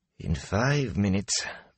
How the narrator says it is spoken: Master Gil sighed

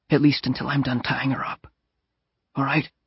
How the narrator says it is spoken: whispered

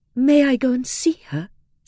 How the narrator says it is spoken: said Dorothea eagerly

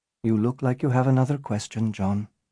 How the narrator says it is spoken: Natasha said softly

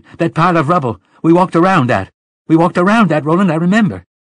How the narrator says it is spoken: she shouted

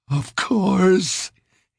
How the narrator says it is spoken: sobbed

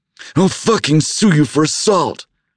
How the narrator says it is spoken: he yelled

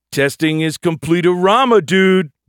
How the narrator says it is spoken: Bilby shouted

